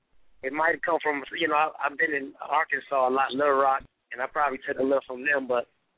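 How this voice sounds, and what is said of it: Deep Southern American accent. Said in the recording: “a lot of people say I got a real deep southern accent”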